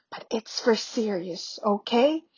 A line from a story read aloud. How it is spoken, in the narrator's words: he told her, without knowing exactly why whispering